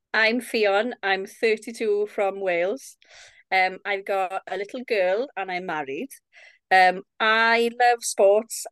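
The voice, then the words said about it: Lovely Welsh accent. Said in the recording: “your lovely accent”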